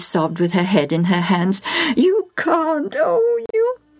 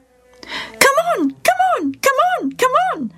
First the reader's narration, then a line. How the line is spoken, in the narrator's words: Bobo screeched